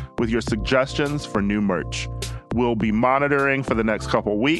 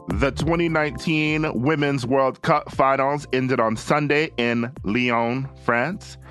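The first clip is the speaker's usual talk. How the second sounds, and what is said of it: Faint put-on French accent. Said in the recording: “It sounded like you were doing one-fourth of your usual repugnant accent.”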